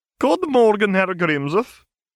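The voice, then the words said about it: Heavy Scottish accent, McGonagall. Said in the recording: “Professor McGonagall trilled in a heavily Scottish accent”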